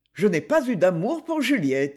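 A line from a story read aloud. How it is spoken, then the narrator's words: Said coldly. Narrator (French): dit-il froidement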